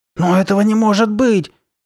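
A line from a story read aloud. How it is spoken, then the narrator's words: Exclaiming. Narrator (Russian): воскликнула Карли Бет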